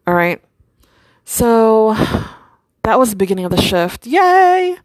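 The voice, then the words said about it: Sarcastic cheer. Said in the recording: “I'm being sarcastic.”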